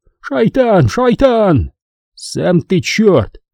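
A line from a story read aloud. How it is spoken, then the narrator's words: Shouted retort. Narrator (Russian): крикнул я ему в ответ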